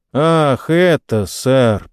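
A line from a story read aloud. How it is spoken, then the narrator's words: Drawling. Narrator (Russian): протянул рыжий Джон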